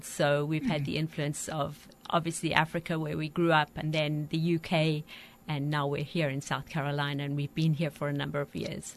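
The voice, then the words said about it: Southern African accent with British influence. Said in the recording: “Sue's Southern African accent ... you've a little bit of accent from there as well blended in”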